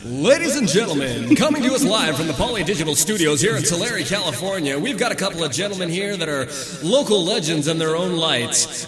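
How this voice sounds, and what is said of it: Boxing ring announcer voice. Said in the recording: “in your best fucking ring announcer voice”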